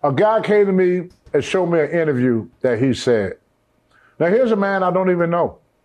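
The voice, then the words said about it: Southern American accent. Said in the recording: “my Southern accent.”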